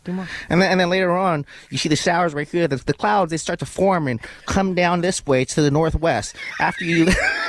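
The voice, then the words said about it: Imitates a TV weatherman's voice. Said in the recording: “You sound just like Lee. I mean, you really do. You're doing a great job ... a Lee impression ... Lee, the weather guy”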